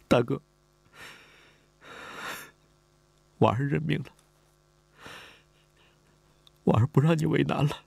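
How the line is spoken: Tearful, crying. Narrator (Chinese): 李婉儿哭了，他哭着说

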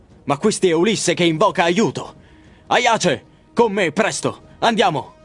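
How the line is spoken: Exclaimed. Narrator (Italian): Menelao, che esclama

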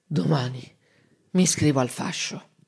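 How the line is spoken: Slow drowsy mumble. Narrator (Italian): piano piano, tra una bollicina di saliva e l'altra, disse

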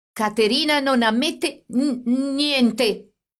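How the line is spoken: Stammering. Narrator (Italian): egli disse balbettando

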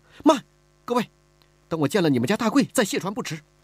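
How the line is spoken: Anxious, urgent. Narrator (Chinese): 李婉儿急了

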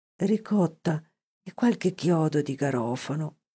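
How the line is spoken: Dying man's sigh. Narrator (Italian): sospirò il moribondo

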